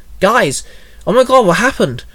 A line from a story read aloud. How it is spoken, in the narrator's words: Haley blurted